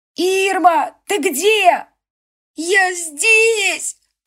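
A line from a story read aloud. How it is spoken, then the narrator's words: Little wolf sobbing. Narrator (Russian): прорыдала волчишка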